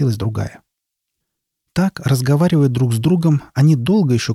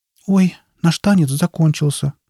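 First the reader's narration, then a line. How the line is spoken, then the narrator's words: Sad. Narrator (Russian): грустно сказала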